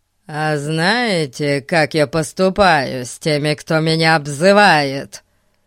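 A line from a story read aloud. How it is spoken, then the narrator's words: Menacing boy. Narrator (Russian): грозно заявил мальчик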